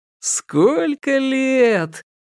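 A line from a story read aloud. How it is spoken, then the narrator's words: Wistful sing-song drawl. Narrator (Russian): нараспев протянул он, добавив немного грусти в радостную улыбку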